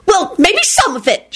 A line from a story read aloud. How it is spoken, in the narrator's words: she screeched